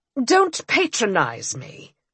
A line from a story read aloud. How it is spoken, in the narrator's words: he replied irritably